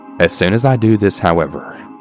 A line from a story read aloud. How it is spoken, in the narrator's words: he says in an extremely defensive tone